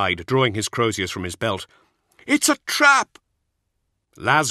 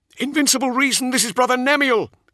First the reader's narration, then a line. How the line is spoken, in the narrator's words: cried